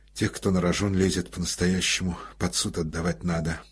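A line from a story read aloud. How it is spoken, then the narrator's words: Muttering. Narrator (Russian): пробормотал Коростелев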